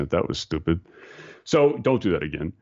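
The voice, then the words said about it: Imitated Dutch accent. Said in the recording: “his Dutch accent ... I'm slaughtering his accent”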